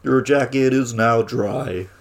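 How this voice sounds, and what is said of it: 80s-style robot voice. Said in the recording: “robot voice. That's the 80s robot voice”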